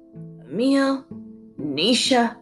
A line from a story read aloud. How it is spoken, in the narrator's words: the man croaked